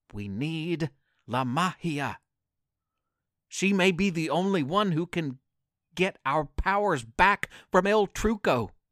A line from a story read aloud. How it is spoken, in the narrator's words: Super Duper Dude whispered to his partner